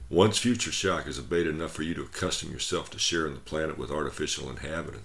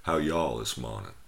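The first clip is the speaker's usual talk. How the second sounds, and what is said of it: Put-on Southern American accent. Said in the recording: “a greeting with a southern accent.”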